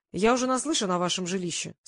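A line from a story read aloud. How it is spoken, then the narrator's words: Plain. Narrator (Russian): сказал режиссер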